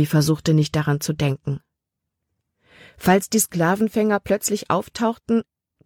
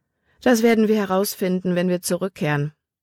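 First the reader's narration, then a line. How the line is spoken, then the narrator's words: Plain. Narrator (German): sagte Caleb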